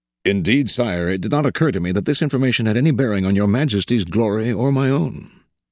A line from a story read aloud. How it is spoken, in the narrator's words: said Talleyrand calmly, completely unflustered